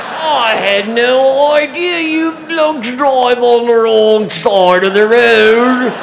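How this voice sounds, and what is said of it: Put-on British accent. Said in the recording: “can you speak with a British accent? ... your accent is so good?”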